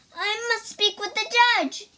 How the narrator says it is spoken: she cried

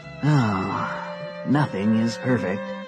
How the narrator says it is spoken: sighed the fox

